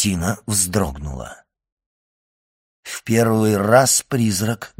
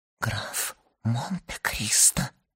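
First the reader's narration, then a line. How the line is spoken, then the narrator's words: Whisper. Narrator (Russian): прошептала она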